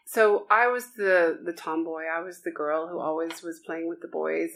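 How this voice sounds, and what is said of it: Foreign-accented English. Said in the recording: “You can tell from my accent, I grew up overseas.”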